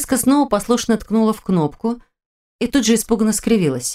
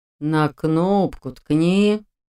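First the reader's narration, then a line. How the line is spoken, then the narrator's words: Weary old man's drawl. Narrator (Russian): тоном утомленного жизнью и собственной мудростью старца протянул он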